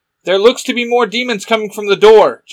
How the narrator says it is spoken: Jay shouts

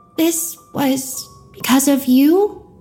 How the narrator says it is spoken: Tina said, her voice small and betrayed

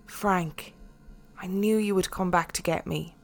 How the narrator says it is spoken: She smiled, and then said softly

